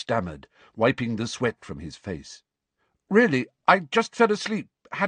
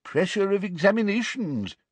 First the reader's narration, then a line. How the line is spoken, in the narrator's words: said the old wizard sympathetically